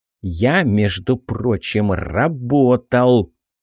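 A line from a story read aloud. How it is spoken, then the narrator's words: Sudden angry hiss. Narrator (Russian): неожиданно зло прошипел Роберт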